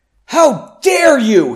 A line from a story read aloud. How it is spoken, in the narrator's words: he screamed